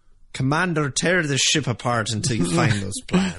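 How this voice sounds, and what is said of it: Darth Vader with Scottish accent. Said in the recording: “James Doohan doing as Vader ... with a Scottish accent coming out of it.”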